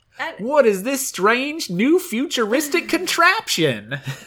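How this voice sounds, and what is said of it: Imitated Southern US accent. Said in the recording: “I feel like you slipped into your Tia there ... Arkansas has a very different accent than ... Tuscaloosa”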